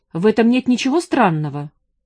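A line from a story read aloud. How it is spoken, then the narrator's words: Sharp. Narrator (Russian): резко сказал он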